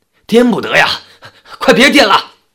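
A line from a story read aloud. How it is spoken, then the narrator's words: Loud shout. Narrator (Chinese): 大声地朝队伍里的人喊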